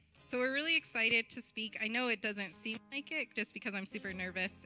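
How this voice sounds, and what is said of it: Congested, stuffy-sounding voice. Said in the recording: “I caught a cold, so I might be a little snotty. You can hear it in my voice.”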